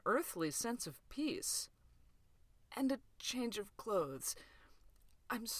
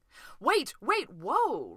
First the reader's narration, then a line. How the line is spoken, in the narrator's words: Ray cried